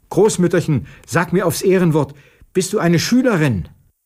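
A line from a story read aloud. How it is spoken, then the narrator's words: Calling out. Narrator (German): rief der Alten zu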